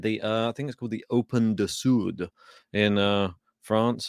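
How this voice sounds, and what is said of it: Attempted French pronunciation. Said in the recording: “I don't know if that was a good accent”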